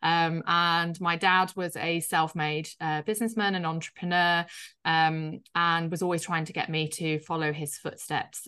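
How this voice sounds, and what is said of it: Slight northern English Yorkshire accent. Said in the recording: “I grew up in a place in the UK called Yorkshire, so in the north, which you'll probably hear slightly in my accent.”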